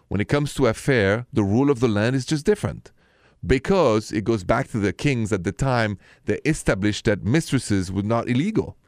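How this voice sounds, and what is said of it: Thick French accent. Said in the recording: “my thick French accent, and you know I'm coming from Paris”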